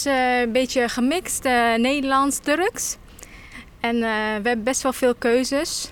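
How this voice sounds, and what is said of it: Slight foreign accent. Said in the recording (Dutch): “ik hoor daar ook een beetje buitenlandse accent.”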